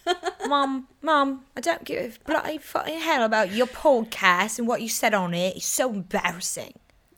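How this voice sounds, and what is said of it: Mock cockney British child accent. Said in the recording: “such a little British bitch ... it's so like cockney ... your little accent”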